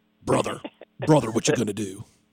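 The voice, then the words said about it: Imitates a wrestler's voice. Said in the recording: “give you my best Hulk Hogan impression.”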